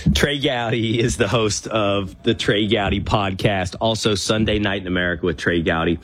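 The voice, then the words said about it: Deep husky voice from illness. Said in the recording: “the pro on sickness on Hantavirus is you get this sexy voice ... I sound like I should be doing an Allstate ad.”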